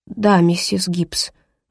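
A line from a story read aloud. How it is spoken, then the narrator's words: Forced out, embarrassed. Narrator (Russian): выдавила Эленор, мечтая только о том, чтобы скрыться от взгляда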